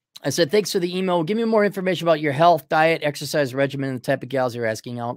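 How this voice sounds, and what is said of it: Voice starting to give out. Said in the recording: “My voice is starting to go because I've been doing a full day of talking.”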